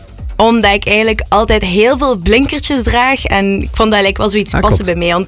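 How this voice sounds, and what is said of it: Slight Ghent Flemish accent. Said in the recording (Dutch): “Ik hoor ook een beetje een Gents accent.”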